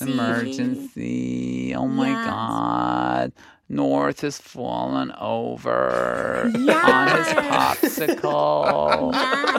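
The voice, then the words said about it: Kim Kardashian impression, high nasal whispery. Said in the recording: “American accent ... High nasal voice. Yeah. Quite high. A little bit whispery. ... Going up at the end of the sentence. ... the vocal fry ... Kim's”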